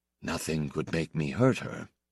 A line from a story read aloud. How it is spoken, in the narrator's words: he said very quietly, as if making a promise